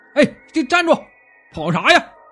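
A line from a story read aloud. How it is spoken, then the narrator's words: Several people shouting while chasing. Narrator (Chinese): 边追几个人还边喊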